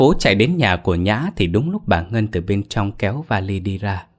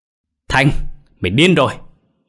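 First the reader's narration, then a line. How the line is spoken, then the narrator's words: Furious screaming. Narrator (Vietnamese): Bà ta tức giận lớn tiếng gào lên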